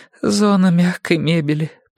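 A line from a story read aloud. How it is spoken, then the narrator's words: Dull, lifeless voice. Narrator (Russian): потухшим голосом ответила Ирина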